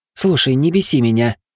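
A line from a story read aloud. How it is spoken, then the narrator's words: Irritated reply. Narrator (Russian): раздраженно ответила декан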